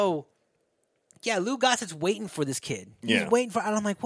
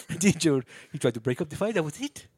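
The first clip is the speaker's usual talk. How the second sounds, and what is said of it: Generic foreign, South African-ish accent. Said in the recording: “I don't know why this guy's South African now... generic foreign accent”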